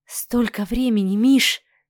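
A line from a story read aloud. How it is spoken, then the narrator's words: Whisper. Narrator (Russian): прошептала Оксана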